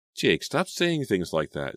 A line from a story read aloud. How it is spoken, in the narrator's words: Selena pleaded